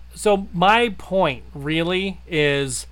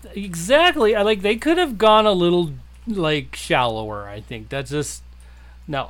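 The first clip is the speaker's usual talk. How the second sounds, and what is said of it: Sarcastic tone. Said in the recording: “That was sarcasm”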